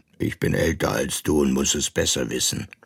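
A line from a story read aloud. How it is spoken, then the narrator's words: Grumpy parrot's voice. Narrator (German): dem Papagei, der zuletzt brummig wurde und nur noch sagte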